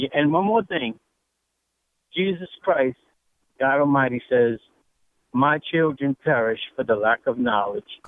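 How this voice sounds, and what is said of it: Louisiana accent. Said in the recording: “Love your accent, by the way, if I could just tell you that Louisiana accent.”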